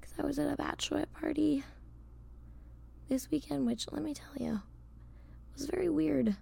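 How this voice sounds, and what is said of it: Hoarse, fading voice. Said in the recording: “I'm also like losing my voice”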